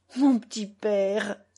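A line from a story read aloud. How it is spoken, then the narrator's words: Moaning. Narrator (French): gémit Petrovna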